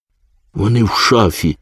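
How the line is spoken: Frightened yet pleased. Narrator (Ukrainian): сказала панна Цап, заразом злякано і вдоволено

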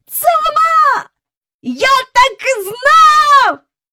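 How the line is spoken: Shouted. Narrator (Ukrainian): закричав Майкл

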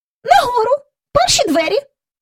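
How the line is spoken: Grumbled, indignant, thin squeaky voice. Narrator (Ukrainian): буркнула, знай обурено примовляючи тонким пискливим голосом

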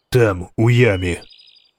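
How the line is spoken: Calm. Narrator (Ukrainian): сказав він спокійно

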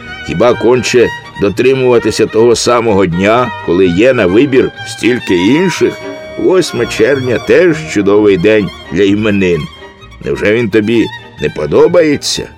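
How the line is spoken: Laughing child. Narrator (Ukrainian): малий засміявся

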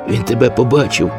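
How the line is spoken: Frightened child asking. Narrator (Ukrainian): злякано спитав малий

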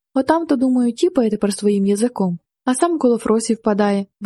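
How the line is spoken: Cheerful young man. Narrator (Ukrainian): весело сказав хлопець

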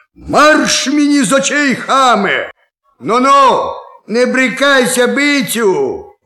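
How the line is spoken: Shout. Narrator (Ukrainian): як крикне

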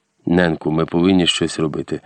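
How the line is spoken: Urgent whisper. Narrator (Ukrainian): гаряче зашепотів

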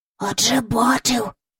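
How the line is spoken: Whisper. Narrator (Ukrainian): прошепотів Майкл

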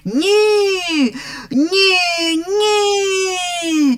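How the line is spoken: Guests shouting from everywhere. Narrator (Ukrainian): закричали гості з усіх боків

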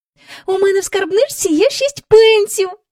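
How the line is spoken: Joyful. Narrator (Ukrainian): радісно сказала Джейн

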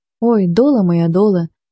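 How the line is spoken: Near moan, muffled. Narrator (Ukrainian): майже простогнав Кермелюк, затуливши обличчя руками

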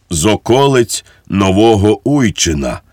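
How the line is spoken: Sad voice. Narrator (Ukrainian): смутним голосом відізвався цісарсько-королівський панотець Мартінець

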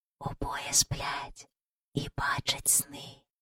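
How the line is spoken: Whisper from above. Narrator (Ukrainian): пошепки сказав хтось над ними

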